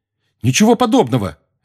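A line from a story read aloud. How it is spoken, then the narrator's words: Sharp. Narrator (Russian): резко сказал Гарри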